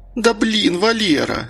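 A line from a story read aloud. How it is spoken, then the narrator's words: Whining. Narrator (Russian): заскулила Мария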